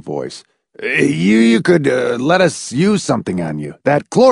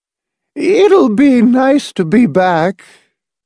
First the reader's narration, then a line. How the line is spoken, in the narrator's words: Edith Pritchett said in a wavering, uncertain voice